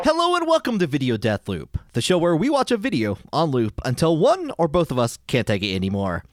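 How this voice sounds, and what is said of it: Game-show-host voice swinging low and high. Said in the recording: “Did your voice just drop there? ... Like, dropped or high? I kind of went both ways. I did like a sine wave with my voice a little bit. ... I was trying to be like really exciting, like you're like opening to like a game show host ... I couldn't decide if I wanted to go low or high”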